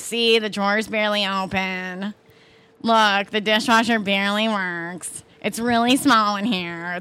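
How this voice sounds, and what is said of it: Exaggerated Chicago accent. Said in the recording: “like Chicago accent is like really having”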